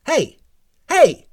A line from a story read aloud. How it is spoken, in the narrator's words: she called out